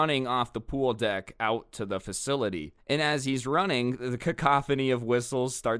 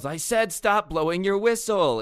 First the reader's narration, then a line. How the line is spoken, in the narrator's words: yells